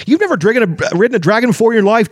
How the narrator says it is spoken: Tasselhoff said indignantly

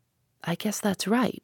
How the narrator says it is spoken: said Stoner quietly

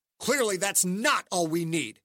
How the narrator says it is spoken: Dante said, his face morphing into a narrow-eyed snarl

